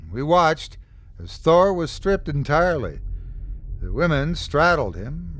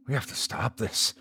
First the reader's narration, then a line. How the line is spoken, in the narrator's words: Anya whispered to me